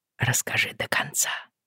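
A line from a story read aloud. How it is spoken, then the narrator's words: Whispered request. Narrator (Russian): шепотом попросил он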